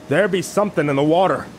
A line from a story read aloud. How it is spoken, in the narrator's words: one of the men shouted out